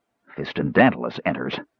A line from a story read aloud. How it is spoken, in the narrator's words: Caramon said gruffly